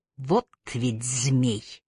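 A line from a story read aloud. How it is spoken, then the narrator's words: Through clenched teeth. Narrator (Russian): процедила Трой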